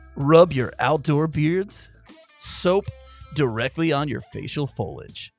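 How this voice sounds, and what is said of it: Exaggerated radio announcer voice. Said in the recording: “in my best radio voice,”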